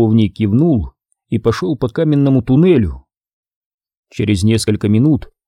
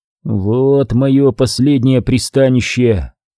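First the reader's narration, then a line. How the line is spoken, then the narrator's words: Grumbling prisoner. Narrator (Russian): проворчал невольный узник этой мрачной каменной клетки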